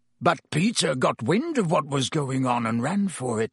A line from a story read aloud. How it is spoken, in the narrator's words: croaked Black